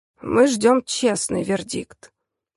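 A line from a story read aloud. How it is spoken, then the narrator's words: Warning father. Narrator (Russian): предупредил отец Алисы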